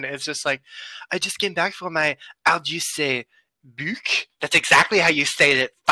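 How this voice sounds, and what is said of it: Deliberately bad French accent. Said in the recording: “a shitty French accent”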